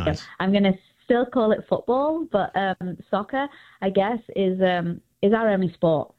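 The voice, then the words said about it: English accent. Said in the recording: “as you can all probably hear, I'm from England ... love only your accent”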